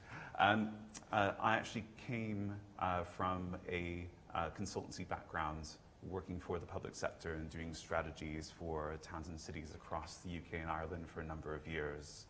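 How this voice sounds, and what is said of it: American English accent. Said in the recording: “my American accent”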